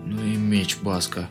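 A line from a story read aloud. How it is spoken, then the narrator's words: Forced out, exhausted. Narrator (Russian): выдавил я из последних сил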